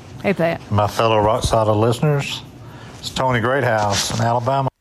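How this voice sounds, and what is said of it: Musical Southern US accent. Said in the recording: “accent ... it's like got music to it ... he sounds like a movie star”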